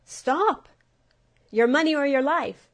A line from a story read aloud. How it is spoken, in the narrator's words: the grasshopper shouted